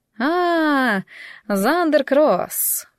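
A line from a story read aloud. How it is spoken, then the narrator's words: Drawling. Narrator (Russian): протянула она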